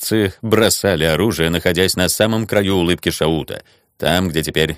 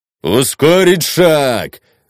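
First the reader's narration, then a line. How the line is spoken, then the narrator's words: Shouted. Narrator (Russian): закричал Дейт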